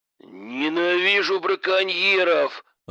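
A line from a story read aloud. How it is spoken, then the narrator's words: Growled. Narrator (Russian): рыкнул Иван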